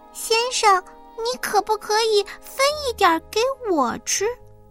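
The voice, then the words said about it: Thin, high-pitched little voice. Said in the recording (Chinese): “一个尖细的声音说”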